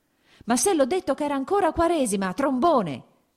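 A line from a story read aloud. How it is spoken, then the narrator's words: Shouting. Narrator (Italian): gridò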